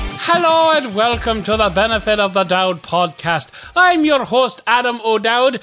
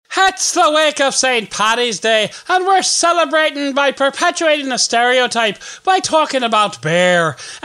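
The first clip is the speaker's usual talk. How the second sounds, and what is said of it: Bad put-on Irish accent. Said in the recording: “doing a bad Irish accent”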